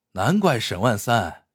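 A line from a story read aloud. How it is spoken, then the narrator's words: Admiring crowd. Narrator (Chinese): 老百姓 都赞叹说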